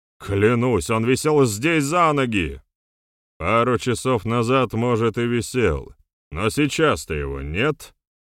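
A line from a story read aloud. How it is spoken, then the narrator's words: Scoffing. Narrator (Russian): хмыкнул Джилос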